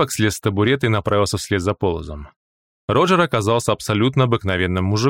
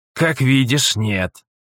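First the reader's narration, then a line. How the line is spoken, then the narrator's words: Snort. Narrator (Russian): хмыкнул Полос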